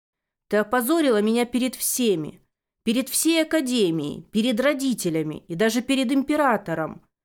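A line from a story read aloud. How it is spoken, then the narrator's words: Shouting in face. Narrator (Russian): кричал он мне в лицо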